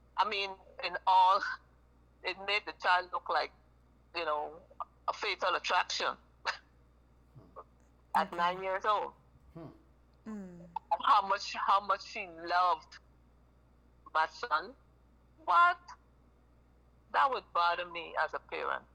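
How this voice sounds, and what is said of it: Guyanese accent. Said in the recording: “I love your accent. ... I'm from Guyana, South America.”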